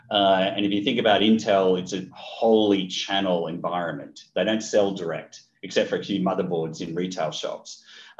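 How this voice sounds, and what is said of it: Australian accent. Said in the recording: “I was Australian, that's where the accent comes from.”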